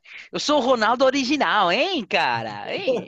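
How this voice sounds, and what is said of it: Put-on musical Brazilian Portuguese accent. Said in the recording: “in a Brazilian accent ... they're always so much more musical than the Portuguese ... they sound more musical the second time around ... I was trying harder.”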